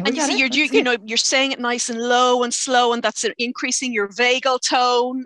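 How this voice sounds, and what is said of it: Speaks with a distinctive accent. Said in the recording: “Can you just say it for us one more time in your beautiful accent”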